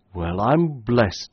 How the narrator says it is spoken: exclaimed the chief constable once again

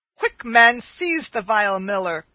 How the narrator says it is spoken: cried Stutely, who was nigh choking with laughter

